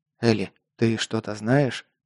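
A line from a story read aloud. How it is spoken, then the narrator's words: Whisper. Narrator (Russian): прошептал я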